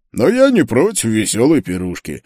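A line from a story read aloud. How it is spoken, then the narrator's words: Amused snort. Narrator (Russian): хмыкнул Ньюгортиц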